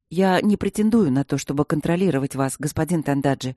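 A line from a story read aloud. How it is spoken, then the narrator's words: Calm reply. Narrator (Russian): спокойно ответил капитан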